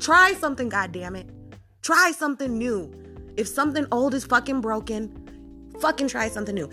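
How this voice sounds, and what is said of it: Angry yelling. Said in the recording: “the person that I'm yelling at right fucking now ... I am having a fucking mental meltdown”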